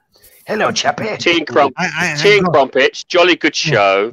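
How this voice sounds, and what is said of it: Put-on posh English accent. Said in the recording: “wants to talk with an English accent”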